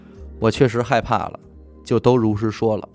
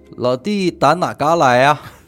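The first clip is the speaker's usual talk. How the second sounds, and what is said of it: Northeastern Chinese accent. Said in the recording (Chinese): “对方是三省口音。”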